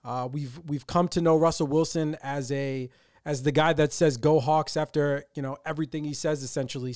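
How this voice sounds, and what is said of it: Excited voice. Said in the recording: “you can probably tell in my voice how excited I am”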